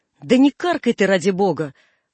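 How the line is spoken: Irritated father. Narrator (Russian): раздраженно говорил отец

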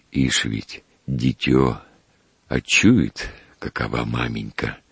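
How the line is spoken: Whispering. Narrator (Russian): прошептал Федос

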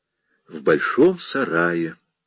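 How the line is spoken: Soft explanation. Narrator (Russian): мягко пояснила она

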